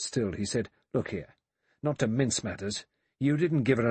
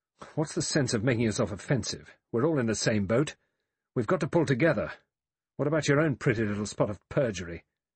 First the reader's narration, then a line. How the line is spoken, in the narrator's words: Philip Lombard said quickly and angrily to Blore